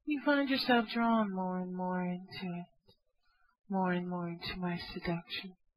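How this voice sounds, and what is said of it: Soft, slow, seductive voice. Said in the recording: “I have a very sexy voice.”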